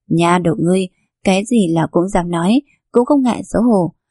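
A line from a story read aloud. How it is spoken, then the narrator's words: Laughing. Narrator (Vietnamese): Kỳ Thị bật cười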